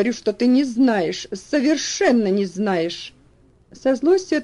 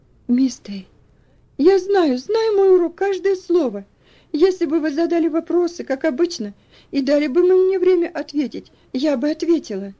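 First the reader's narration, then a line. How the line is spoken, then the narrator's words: Sobbing, overwhelmed. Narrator (Russian): Бедная Элси больше выдержать не могла и, разрыдавшись, сказала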